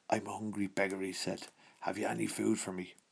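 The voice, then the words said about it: Very strong put-on Irish accent. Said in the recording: “With a very strong Irish accent, in brackets. Joke. ... it was the first accent that came into my head.”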